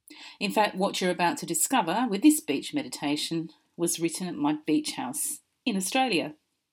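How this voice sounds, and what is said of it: Mixed Australian and British accent. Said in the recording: “As you can hear from my accent, I'm half Australian and half British”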